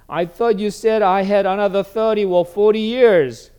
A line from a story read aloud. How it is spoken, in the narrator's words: She whined